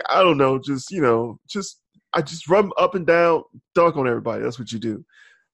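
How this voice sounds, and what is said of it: Poor Shaq impression. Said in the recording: “That's a terrible Shaq impersonation.”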